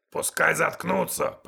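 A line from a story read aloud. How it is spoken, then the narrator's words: Uncontrolled growl. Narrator (Russian): прорычал я, не сдержавшись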